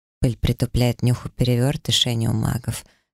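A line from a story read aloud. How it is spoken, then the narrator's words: Calm, unsurprised man. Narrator (Russian): совершенно непринужденно и спокойно ответил мне мужчина, будто его мой приход совершенно не удивил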